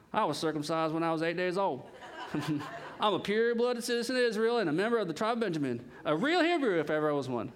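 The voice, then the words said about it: Put-on Southern US accent. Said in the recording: “I wanted to speak in slang, like a southern accent.”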